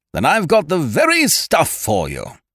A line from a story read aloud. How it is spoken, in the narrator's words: he boomed